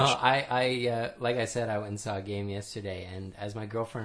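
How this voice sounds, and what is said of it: Usual voice. Nothing is said of it.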